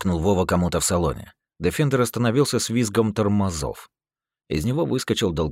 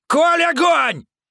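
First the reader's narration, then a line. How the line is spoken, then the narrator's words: Yelling. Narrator (Russian): Заорал Вова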